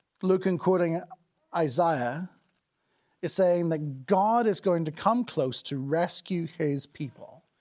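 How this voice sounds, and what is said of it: Nordic accent. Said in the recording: “my Nordic accent”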